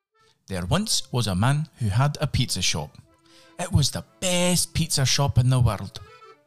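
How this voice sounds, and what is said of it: Put-on Scottish accent. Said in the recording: “this is my Scottish accent”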